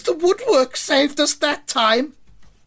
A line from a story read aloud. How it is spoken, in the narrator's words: A Carford fan shouts